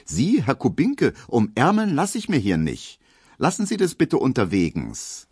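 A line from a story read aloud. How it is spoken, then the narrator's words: Aloof call. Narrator (German): wird die ganz unnahbar und ruft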